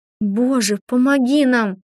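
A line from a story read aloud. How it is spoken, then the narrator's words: Pleading. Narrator (Russian): взмолилась я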